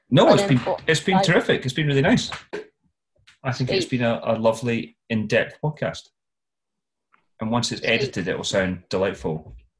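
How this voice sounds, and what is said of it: Scottish accent. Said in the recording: “Scottish accents always sell well”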